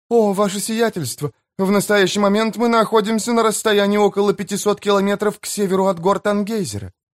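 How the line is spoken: Babbling. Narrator (Russian): залепетала мисс Пай

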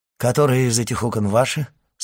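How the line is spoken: Forced natural-sounding question. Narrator (Russian): спросил он графа, насколько мог естественным тоном

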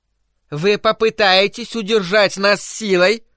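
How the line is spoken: Shrill elderly woman's question. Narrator (Russian): Пронзительным голосом спросила престарелая леди

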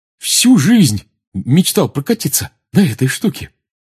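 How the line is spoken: Joyful. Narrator (Russian): радостно сказал Рон

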